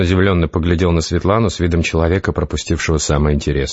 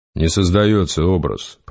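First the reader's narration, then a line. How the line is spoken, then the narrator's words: Grumbling. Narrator (Russian): проворчал Гессер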